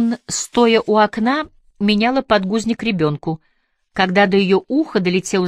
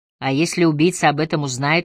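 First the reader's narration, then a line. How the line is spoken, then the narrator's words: Gloomy voice. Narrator (Russian): мрачным голосом добавила Эмили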